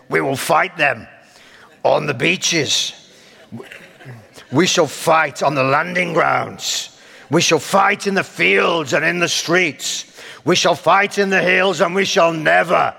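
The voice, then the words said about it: Winston Churchill impression. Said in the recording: “my attempt at a Churchillian accent”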